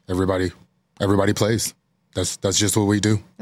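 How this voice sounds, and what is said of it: Imitates another person's voice. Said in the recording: “That's a good imitation... That's a really good imitation”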